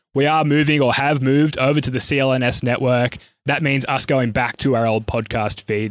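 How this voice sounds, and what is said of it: Croaky, slightly sick voice. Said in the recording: “my voice is a little croaky. I've just got a little sickness off my toddler this week. ... the change in tone”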